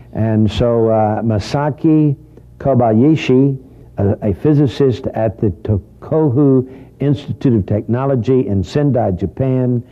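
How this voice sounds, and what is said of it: Texas accent. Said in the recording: “With my Texas accent.”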